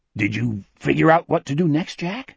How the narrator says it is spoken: Wolf asked timidly

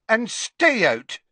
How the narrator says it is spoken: shouted Madame Rosmerta

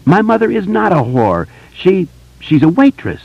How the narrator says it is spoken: cried out in a shrill, furious voice

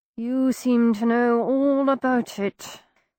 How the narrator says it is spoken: Sherlock grumbled from the depths of the ha-ha, his breath seething between his teeth

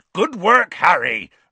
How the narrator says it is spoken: roared Hagrid

